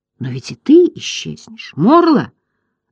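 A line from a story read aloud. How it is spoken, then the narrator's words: Angry exclamation. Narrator (Russian): гневно воскликнул Атрей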